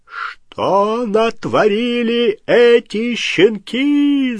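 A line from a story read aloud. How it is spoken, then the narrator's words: Yell. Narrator (Russian): завопил он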